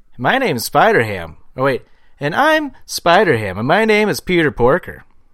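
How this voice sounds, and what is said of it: Imitates another person's voice. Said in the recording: “my John Mulaney impression ... That's pretty good”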